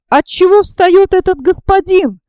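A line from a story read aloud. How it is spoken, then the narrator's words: Shouted. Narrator (Russian): крикнула студентка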